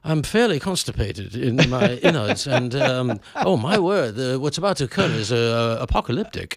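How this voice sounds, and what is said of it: Posh upper-class British accent. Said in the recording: “British accent by far ... And you sound like you're in the House of Lords.”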